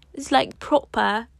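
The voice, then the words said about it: Put-on British English accent. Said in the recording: “Just slipping into an English accent, British accent,”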